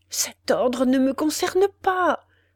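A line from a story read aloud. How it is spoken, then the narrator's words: Stammered, desperate prisoner. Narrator (French): balbutia le désespéré prisonnier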